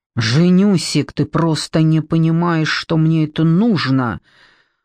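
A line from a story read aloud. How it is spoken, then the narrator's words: Husband growling. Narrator (Russian): Прорычал муж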